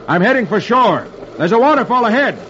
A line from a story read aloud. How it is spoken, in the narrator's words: shouts